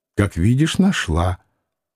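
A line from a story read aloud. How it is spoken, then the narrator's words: Quiet reply. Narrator (Russian): тихонько ответила она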